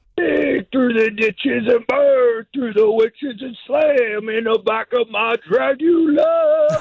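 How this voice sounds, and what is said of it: Sung Rob Zombie impersonation. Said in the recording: “Best Rob Zombie impersonation right there. That wasn't bad at all.”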